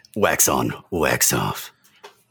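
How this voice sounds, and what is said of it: Gruff gravelly Michael Ironside impression. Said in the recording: “he's very gravelly, so this is my Michael Ironside ... I'm Michael Ironside, and I'm gruff and gravelly”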